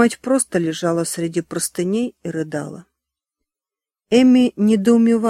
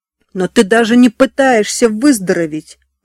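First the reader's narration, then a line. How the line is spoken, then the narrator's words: Yelling. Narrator (Russian): орала Эми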